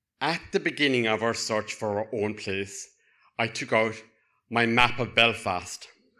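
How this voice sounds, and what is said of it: Southern Irish Cork accent. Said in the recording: “The one with the Irish surname ... and the Southern accent. You can't get more Southern than Cork.”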